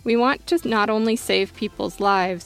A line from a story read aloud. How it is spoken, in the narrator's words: he said